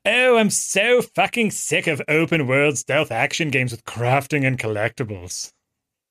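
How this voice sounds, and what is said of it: Imitates another person's voice. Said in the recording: “No, that's not a good impression at all. ... Yahtzee impression”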